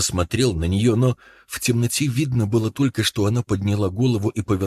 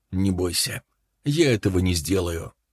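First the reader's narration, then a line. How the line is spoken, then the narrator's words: Calm. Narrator (Russian): Он помолчал некоторое время и потом сказал спокойно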